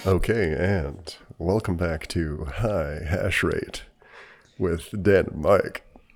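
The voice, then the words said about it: Radio DJ announcer voice. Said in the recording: “the like the AM DJ, ... the AM radio ... FM radio DJ voice? ... you want to sound more AM.”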